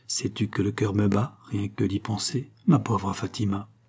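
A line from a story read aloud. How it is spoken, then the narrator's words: Nurse murmuring. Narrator (French): murmura la nourrice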